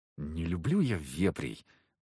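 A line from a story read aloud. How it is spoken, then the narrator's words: Through gritted teeth. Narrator (Russian): процедила земляна сквозь зубы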